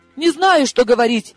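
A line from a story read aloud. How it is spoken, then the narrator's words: Young woman sobbing. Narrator (Russian): разрыдалась девица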